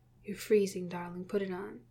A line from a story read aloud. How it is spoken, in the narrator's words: he says quietly